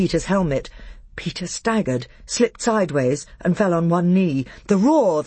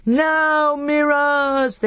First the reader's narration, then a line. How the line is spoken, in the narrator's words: they yelled